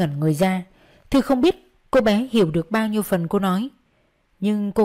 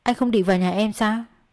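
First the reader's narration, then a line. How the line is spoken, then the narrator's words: Plain. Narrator (Vietnamese): Vi hỏi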